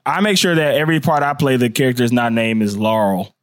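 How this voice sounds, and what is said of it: Southern American accent with drawl. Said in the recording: “I have a Southern accent, so when I say that name, I say Laurel ... You put a drawl on Laurel.”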